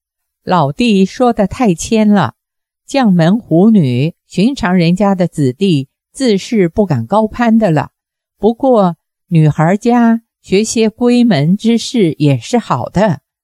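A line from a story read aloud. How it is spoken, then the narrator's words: Laughing. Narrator (Chinese): 王元霸笑道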